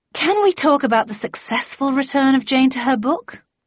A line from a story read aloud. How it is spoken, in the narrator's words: I asked wearily